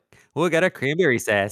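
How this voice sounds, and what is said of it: Put-on Canadian accent. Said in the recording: “I was doing a Canadian accent ... It's as good as your British.”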